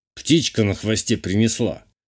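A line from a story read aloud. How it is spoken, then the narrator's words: Snort. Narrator (Russian): хмыкнул Журбер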